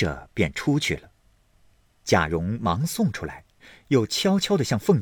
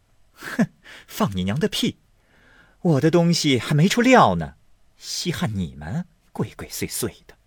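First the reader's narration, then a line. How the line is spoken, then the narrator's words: Laughing. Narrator (Chinese): 凤姐笑道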